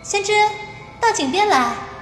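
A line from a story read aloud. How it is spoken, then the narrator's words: Faint distant calling. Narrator (Chinese): 风铃声中似乎有谁在叫他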